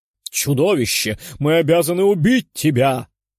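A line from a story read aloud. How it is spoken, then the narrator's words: Roaring. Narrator (Russian): взревел архангел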